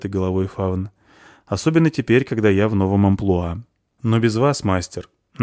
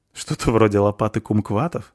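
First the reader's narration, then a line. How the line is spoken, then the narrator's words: Laughing young woman. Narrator (Russian): рассмеялась девушка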